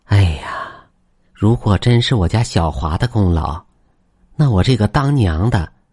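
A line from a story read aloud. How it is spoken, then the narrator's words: Sighing. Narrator (Chinese): 张大婶叹了口气说道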